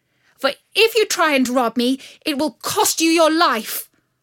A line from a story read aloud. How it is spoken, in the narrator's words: she called out